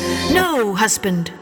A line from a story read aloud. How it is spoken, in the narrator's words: said quite anxiously